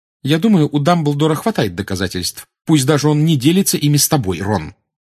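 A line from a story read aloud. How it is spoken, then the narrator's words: Sharp reply. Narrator (Russian): резко отозвалась Гермиона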